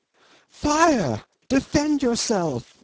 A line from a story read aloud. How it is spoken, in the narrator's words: the girl outside cried in an agonizing voice